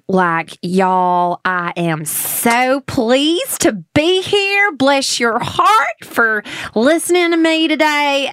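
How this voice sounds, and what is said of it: Put-on Southern US accent. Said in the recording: “give me like Alabama, Georgia, like Southern ... I just love this accent so much ... Those are good”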